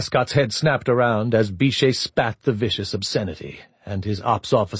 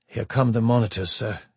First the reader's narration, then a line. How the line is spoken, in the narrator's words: he said grimly